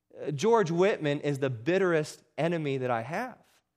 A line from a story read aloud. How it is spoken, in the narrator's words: exclaimed the old preacher